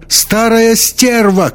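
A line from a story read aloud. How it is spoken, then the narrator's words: Shout. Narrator (Russian): крикнула Бригитта Таллер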